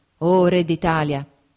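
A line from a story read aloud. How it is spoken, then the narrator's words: Exclamation. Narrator (Italian): esclamò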